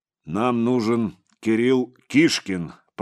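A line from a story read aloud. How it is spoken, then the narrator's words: Deep bass voice. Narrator (Russian): пробасил отец Егорий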